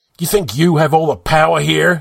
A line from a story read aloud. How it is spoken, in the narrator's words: yelled